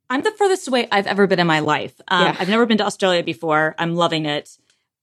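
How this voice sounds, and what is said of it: American accent. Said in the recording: “my ugly American accent”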